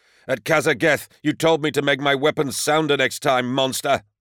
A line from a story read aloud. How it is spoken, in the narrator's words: howled